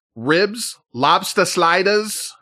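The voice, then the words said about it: Terrible put-on accent. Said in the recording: “That was a terrible accent.”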